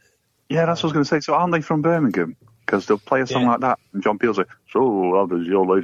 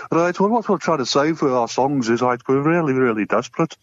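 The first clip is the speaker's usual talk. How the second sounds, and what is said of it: Poor imitation of Birmingham accent. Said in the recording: “That was terrible... my accent... your accent... that's because you're northern”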